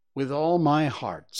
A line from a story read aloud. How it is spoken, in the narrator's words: said Hans